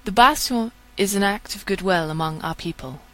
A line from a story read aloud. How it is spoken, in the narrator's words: explains the priestess calmly